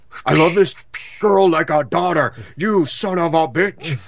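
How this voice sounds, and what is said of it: Overly emotive Charles Bronson impersonation. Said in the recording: “he sounds more wooden... That was a good, you know, attempt at an impersonation... that was too emotive. For Charles think, Bronson.”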